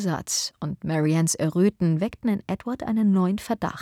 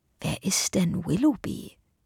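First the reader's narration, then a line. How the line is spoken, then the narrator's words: Quiet question. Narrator (German): fragte er leise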